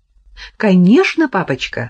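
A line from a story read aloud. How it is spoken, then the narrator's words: Joyful child's reply. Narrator (Russian): радостно ответила проказница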